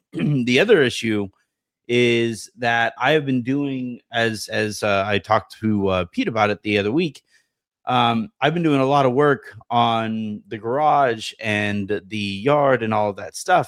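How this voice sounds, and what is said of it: Sick, congested, strained voice. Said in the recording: “you guys can kind of sort of hear it in my voice ... Yesterday, I could barely speak ... my nose was just leaking like a faucet”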